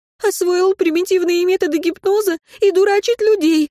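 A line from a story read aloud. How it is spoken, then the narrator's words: Fast, dead woman. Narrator (Russian): быстро говорила покойница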